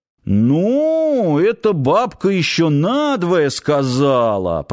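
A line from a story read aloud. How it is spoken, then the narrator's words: Drawl. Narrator (Russian): протянул Киркин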